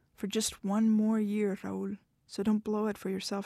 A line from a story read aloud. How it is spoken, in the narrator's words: said